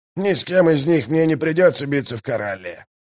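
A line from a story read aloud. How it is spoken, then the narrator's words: Growled. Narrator (Russian): прорычал Калор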